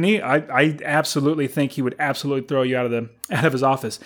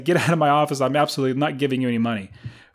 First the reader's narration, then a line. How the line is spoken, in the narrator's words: He will laugh at you and say